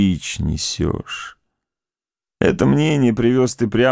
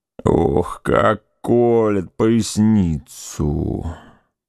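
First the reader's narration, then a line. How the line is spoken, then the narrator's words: Groaning. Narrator (Russian): простонал Петр Иванович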